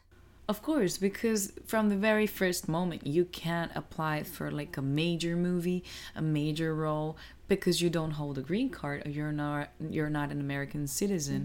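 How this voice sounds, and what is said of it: Mild non-native accent. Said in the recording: “I have an accent. It's not too thick, but I do have an accent.”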